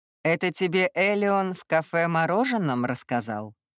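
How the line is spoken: Mocking question. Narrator (Russian): Насмешливо поинтересовался он

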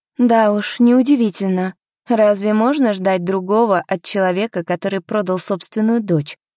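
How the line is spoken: Grim. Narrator (Russian): мрачно произнесла я

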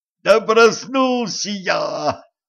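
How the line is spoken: Howling. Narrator (Russian): взвыл кучер

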